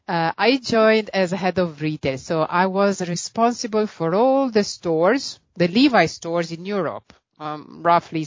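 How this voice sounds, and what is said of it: Italian accent. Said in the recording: “as you can probably hear from my accent, I'm Italian”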